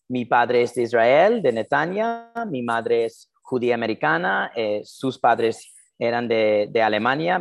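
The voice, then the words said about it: Non-native Spanish with American accent. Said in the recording (Spanish): “mi acento raro que tengo, que, obviamente eh, español, castellano no es mi lengua natal. yo soy de New Jersey, Nueva Jersey, en los Estados Unidos”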